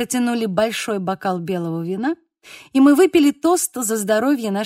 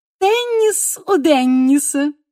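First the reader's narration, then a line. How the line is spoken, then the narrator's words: Loud laughter. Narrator (Russian): захохотала Анжела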